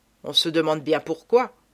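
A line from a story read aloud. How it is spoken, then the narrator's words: Grumbling. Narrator (French): grommelle Marcelin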